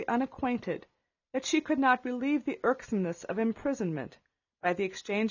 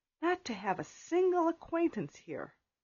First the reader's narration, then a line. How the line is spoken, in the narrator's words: whispered Catherine